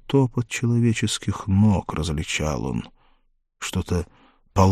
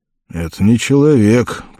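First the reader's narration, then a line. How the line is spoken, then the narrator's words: Grumbling. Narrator (Russian): проворчал Конан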